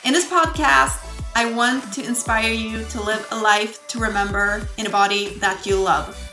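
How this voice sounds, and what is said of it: Swedish accent. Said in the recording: “I'm not a native English speaker ... my lovely Swedish accent”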